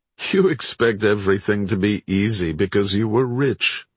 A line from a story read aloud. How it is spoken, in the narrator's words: Lewis would chuckle